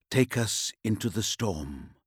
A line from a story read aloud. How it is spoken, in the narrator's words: he said, whispering